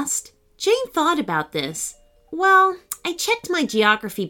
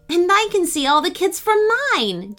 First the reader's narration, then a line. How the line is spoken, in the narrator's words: Jane exclaimed